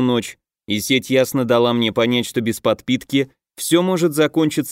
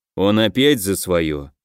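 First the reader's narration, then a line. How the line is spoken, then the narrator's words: Sigh. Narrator (Russian): вздохнул Асир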